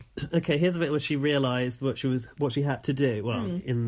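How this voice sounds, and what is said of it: Usual voice. Nothing is said of it.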